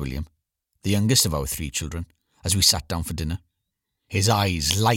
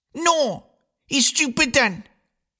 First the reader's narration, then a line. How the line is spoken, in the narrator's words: screamed William, never one to back down without a fight